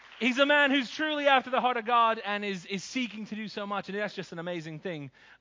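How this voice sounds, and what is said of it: American-sounding accent. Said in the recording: “I sound American, but I'm not. I'm a fake American.”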